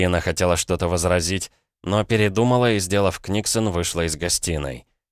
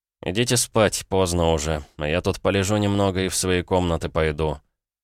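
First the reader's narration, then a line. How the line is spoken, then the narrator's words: Sleepy. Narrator (Russian): я сонно произнес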